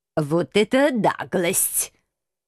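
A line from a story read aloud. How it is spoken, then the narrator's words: Indignant, through gritted teeth. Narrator (Russian): Возмутился профессор и многообещающе процедил сквозь зубы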